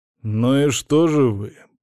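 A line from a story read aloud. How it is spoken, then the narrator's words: Through clenched teeth. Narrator (Russian): процедил Александр Григорьевич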